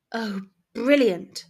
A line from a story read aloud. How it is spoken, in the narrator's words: Ginny breathed in awe